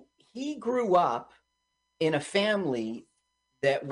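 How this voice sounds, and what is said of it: Usual voice. Nothing is said of it.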